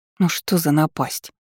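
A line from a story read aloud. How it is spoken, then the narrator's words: Displeased voice. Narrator (Russian): недовольным голосом произнесла Эйвери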